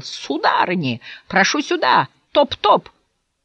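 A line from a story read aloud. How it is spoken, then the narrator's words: Shouted. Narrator (Russian): издал свое характерное, низкое, похожее на кашель хрюканье и закричал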